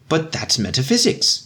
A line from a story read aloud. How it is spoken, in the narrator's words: exclaimed the pessimist, alarmed